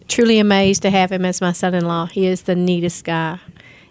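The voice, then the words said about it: Southern Tennessee accent. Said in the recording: “That accent is to die for. ... Tennessee. ... She's my very southern mother”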